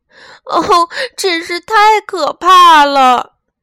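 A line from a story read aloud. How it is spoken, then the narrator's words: Crying. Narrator (Chinese): 他哭着说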